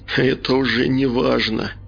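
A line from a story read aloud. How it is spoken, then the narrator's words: Hysterical laugh. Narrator (Russian): Истерически хохотнул Олег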